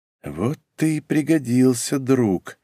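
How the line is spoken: Muttered. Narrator (Russian): пробормотал он

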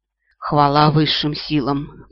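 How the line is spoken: Moaning. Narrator (Russian): простонала она

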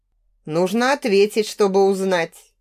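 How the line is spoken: Displeased grumbling. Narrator (Russian): недовольно заворчал Олег

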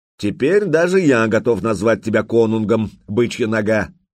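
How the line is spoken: Loud laughter. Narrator (Russian): громко захохотал

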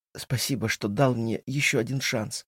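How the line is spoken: Muffled mumble. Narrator (Russian): бормочет Сесилия, уткнувшись мне в плечо

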